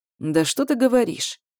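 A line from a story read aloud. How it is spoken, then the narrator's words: Sneering snicker. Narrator (Russian): ехидно усмехается орк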